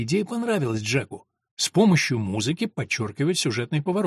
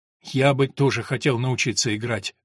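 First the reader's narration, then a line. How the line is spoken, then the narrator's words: Sighing. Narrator (Russian): вздохнул он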